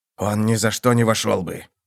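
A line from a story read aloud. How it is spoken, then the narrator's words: Hoarse whisper. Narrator (Russian): хрипло прошептал один из них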